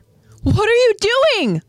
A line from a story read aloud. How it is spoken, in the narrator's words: Krista yells out to Ymir